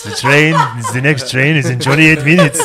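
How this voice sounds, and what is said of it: Put-on Swiss train conductor voice. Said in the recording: “my Swiss conductor voice.”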